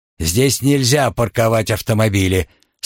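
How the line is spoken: Gloomy voice. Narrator (Russian): сказал кто-то угрюмым голосом

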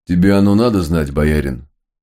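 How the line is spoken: Gloomy snort. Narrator (Russian): мрачно хмыкнул он

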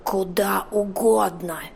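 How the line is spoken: Hoarse rasp. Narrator (Russian): прохрипела Мия

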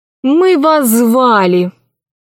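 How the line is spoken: Weary reply. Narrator (Russian): устало ответила госпожа

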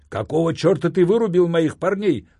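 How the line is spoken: Yelling into phone. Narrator (Russian): заорал в трубку Малинин

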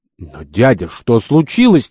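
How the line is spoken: Exclaiming, two voices. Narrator (Russian): наконец воскликнул Ахмед, к которому присоединилась молодая девушка

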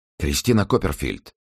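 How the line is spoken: Tipsy whisper. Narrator (Russian): прошептал он в тишине темной комнаты светящемуся монитору, пробуждая в не совсем трезвой голове

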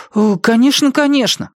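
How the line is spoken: Exclaimed. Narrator (Russian): воскликнул Брайан

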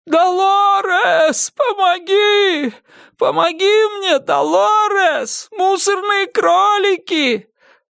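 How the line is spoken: Screaming again. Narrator (Russian): Она опять закричала

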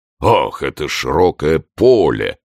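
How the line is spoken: Drawled. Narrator (Russian): протянул Портос

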